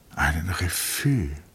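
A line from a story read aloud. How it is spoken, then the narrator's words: Official whispering. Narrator (German): flüsterte der Bezirkshauptmann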